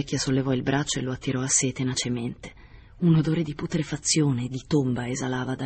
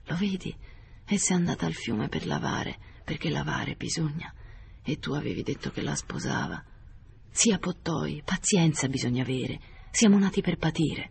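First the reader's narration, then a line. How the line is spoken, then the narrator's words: Voiceless, hoarse. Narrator (Italian): gli disse con voce afona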